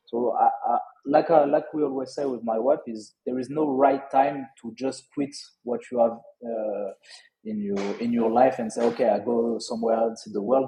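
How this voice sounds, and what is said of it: Strong French accent in English. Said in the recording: “I still have a strong French accent”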